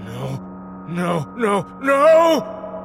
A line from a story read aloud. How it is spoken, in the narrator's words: Peterson wailed